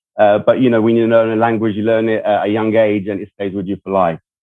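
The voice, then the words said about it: Speaks English with a foreign accent. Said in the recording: “I've been living in America for a long time, and I consider it my country, despite the accent.”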